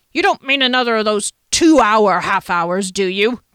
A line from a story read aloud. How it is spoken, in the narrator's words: Janik bellowed